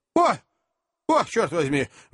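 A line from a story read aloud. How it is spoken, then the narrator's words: Exclamation. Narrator (Russian): воскликнул мистер Уинкль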